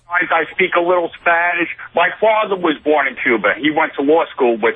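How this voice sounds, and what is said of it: New York accent. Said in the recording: “You have like a real Delhi accent from New York ... You have a real New York accent ... because you sound like that”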